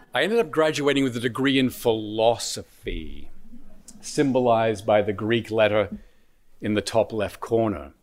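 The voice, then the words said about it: Australian accent. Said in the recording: “I was born and raised in Australia. You've probably noticed an accent.”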